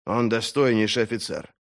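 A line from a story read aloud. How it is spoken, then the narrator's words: Joyless mutter. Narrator (Russian): безрадостно пробормотал Поулдер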